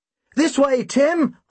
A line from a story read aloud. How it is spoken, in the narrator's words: I shouted